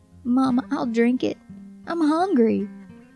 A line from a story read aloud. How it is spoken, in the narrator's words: Samuel whimpered